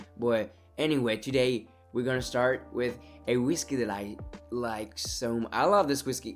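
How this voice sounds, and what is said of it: Congested, stuffy-nosed voice. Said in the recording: “sorry about my voice. My nose is a bit full as well.”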